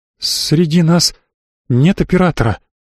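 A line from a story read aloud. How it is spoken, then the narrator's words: Trembling voice. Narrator (Russian): дрогнувшим голосом сказала Анита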